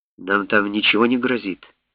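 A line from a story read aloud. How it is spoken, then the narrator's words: Plain. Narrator (Russian): спросил профессор Томпсон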